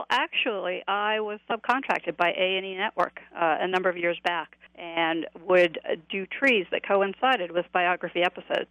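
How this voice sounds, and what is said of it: New England accent. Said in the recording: “your accent is kind of in the New England area”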